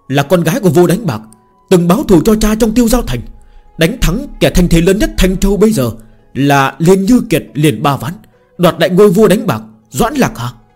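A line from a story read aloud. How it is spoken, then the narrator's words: Crowd shouting together. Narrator (Vietnamese): Mọi người trong Thiên Hạ Phường đều hét lên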